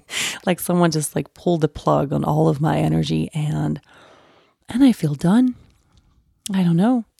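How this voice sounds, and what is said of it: Tired, low-energy voice. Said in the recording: “I am just so tired. I'm sure you can hear it in my voice a little bit too.”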